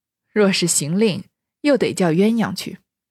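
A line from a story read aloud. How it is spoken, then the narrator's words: Laughing. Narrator (Chinese): 贾母笑道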